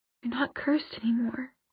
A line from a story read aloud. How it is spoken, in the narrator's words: whispered